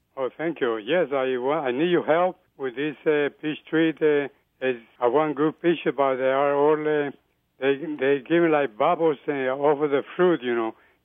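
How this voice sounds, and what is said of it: Colombian Spanish accent. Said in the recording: “you have a unique accent, let's say... I'm South American. I'm Colombian.”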